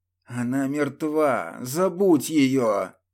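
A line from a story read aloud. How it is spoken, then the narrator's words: Hissing. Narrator (Russian): прошипел Николай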